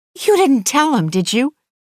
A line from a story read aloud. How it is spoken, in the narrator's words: She blurts